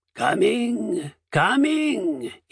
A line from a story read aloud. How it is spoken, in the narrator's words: he called, his voice rough and throaty